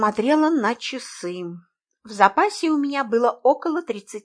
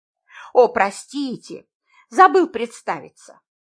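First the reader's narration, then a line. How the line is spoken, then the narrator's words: Forced laugh. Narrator (Russian): Ненатурально рассмеялся мужчина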